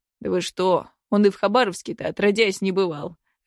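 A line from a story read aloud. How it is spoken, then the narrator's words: Laughing hunter. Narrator (Russian): рассмеялся охотник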